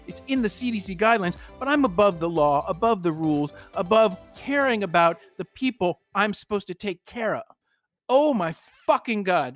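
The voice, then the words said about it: Annoyed, exasperated ranting. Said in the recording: “I sound annoyed? ... You do sound annoyed.”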